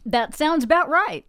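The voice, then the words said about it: Put-on Texas accent. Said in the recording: “You said that with a Texas accent.”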